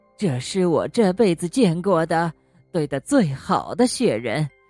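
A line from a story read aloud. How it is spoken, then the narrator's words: Smiling, after a pause. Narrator (Chinese): 过了好一会儿，她才微笑着说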